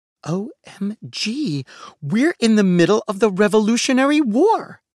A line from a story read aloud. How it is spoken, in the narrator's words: exclaimed Gigi